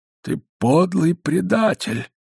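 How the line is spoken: Muffled, trembling with emotion. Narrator (Russian): начал он глухим голосом, дрожащим от волнения

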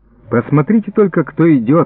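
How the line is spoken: Exclaimed. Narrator (Russian): воскликнул Семен Михайлович

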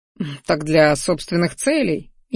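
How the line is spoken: Snide chuckle. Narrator (Russian): ехидненько хохотнул Минариан

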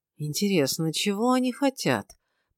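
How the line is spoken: Barely audible murmur. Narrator (Russian): Почти не размыкая губ, чуть слышно поинтересовался Гилберт

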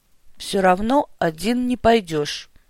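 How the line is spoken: Dull flat voice. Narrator (Russian): глухим, невыразительным голосом проговорил Бестужев

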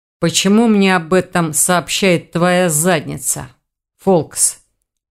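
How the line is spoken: Growl from behind. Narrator (Russian): прорычали за спиной у оборотня

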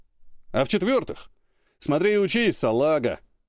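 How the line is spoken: Chuckling colonel. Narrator (Russian): Хохотнул полковник

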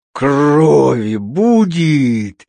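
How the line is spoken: Menacing exclamation. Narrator (Russian): страшным голосом воскликнул он

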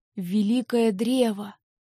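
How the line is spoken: Whispered. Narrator (Russian): прошептал Хингар

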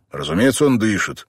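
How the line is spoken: Slightly irritated objection. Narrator (Russian): немного раздраженно возразил Бен

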